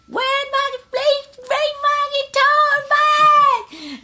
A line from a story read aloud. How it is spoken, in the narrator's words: I'm screaming